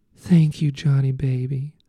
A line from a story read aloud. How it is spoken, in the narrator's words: Lola moaned